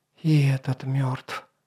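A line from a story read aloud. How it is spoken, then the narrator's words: Whisper. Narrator (Russian): прошептала Инаиксия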